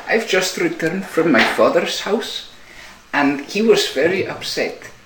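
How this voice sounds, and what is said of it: Bjork impression. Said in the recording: “Bjork impression.”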